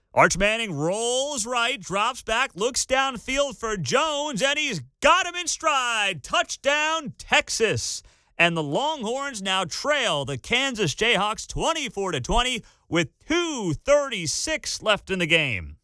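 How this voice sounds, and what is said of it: Mock sports play-by-play announcer voice. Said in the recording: “I did my fake broad ... I used to do play-by-play for high school football”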